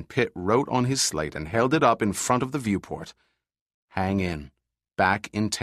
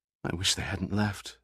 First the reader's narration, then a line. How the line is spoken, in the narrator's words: Summer said softly